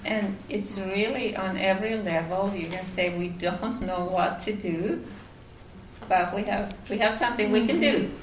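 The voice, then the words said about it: Finnish accent in English. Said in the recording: “I'm from Finland, that's why I have an accent”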